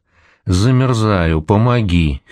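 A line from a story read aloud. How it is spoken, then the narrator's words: Hoarse rasp. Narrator (Russian): хрипит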